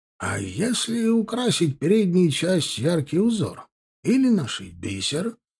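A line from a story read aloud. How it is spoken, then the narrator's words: Thoughtful. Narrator (Russian): задумчиво проговорил галантерейщик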